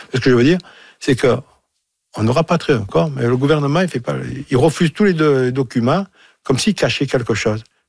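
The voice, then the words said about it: Marseille French accent. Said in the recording (French): “avec mon accent, je suis de Marseille”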